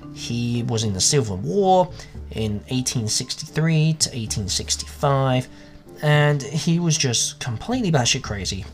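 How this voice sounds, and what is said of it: English accent. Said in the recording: “As you can tell by the accent, I'm English”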